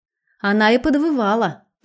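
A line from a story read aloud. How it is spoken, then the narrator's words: Laughing confirmation. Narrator (Russian): тут же, смеясь, подтвердил Леша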